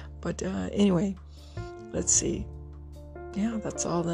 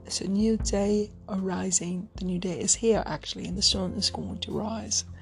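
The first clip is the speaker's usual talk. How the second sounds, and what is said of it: Bad put-on British accent. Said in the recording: “that's my horrible, horrible British accent.”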